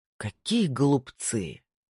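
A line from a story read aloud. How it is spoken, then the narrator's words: In Dutch, deep sigh. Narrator (Russian): сказал Снейдер по-голландски, глубоко вздохнув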